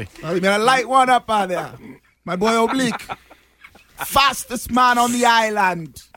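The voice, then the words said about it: Put-on Jamaican patois accent. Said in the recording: “I'm going to have to help you with your Jamaican accent, man ... I'll help you with that Jamaican accent ... I'm working on my patois”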